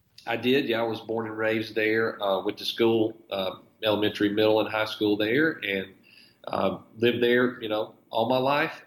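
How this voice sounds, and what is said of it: Northern Alabama Southern accent. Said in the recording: “Littleton, Alabama ... outside of Gadsden, in Etowah County in northern Alabama, and that's what distinguishes your accent ... Very specific to that area.”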